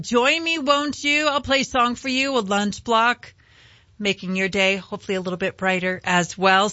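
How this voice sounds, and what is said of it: Rough, sick-sounding voice. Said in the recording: “I know my voice sounds terrible. I'm still fighting this cold off”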